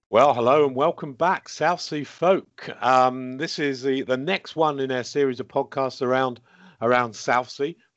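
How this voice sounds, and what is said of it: Husky voice, sore throat. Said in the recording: “I've got a bit of a sore throat, so I might be coming across as a bit husky ... husky voices ... I've certainly got one”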